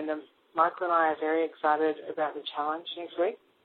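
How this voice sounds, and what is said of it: Australian accent. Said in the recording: “called in all the way from Australia, and don't worry about the accent”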